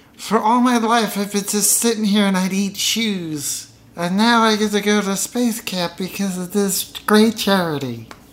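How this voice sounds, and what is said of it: Put-on child's voice. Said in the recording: “I just discovered this voice that I could do ... if you ever audition to voice a child, do not do that voice.”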